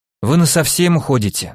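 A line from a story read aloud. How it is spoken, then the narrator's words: Sighing statement, not questioning. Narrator (Russian): вздохнул я, даже не спрашивая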